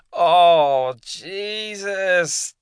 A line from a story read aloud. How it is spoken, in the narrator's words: James whined